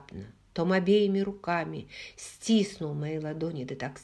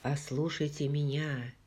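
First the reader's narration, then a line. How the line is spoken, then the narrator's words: Quiet fury. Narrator (Russian): тихо и яростно сказал он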